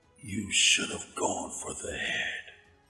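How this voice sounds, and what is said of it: Imitates a movie character's voice. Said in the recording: “My best impression of it”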